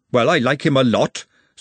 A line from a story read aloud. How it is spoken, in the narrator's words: said Glenda hotly